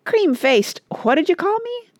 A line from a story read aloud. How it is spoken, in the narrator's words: demanded Rush indignantly